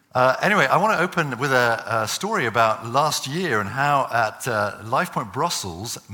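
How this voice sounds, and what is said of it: English accent. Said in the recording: “when I speak English, I have an English accent.”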